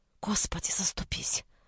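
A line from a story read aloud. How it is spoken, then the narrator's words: Whispered, female. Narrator (Russian): Прошептала она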